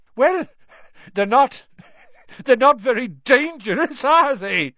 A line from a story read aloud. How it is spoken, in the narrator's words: Seamus choked